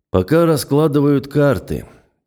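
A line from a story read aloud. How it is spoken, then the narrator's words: Mumbled after a pause. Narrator (Russian): чуть помолчав, пробормотал он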